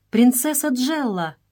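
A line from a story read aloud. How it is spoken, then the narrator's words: Exclamation. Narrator (Russian): воскликнула Мария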